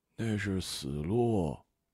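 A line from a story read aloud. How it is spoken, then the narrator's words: Muttering from behind. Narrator (Chinese): 听见他在身后嘟囔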